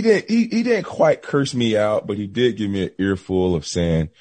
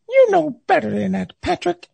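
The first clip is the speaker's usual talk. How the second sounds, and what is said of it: Imitates another person's voice. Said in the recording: “That was his voice. ... that's a great Les Miles impersonation”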